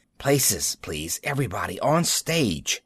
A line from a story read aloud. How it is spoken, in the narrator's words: he was hissing